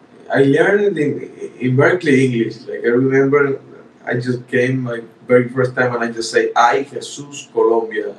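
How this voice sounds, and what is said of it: Non-native Spanish-accented English. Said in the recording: “English is your second language ... The pronunciation, the accent”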